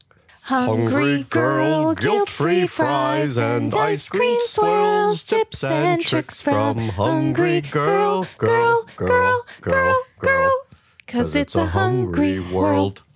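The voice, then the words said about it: Sings in a theatrical Javert-style voice. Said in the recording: “that was my Javert impression”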